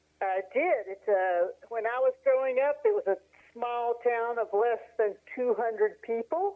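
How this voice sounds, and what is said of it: Appalachian Tennessee accent. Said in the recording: “we still had that Appalachian ... I love your accent.”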